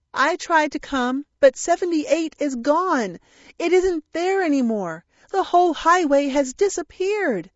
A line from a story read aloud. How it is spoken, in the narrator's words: exclaimed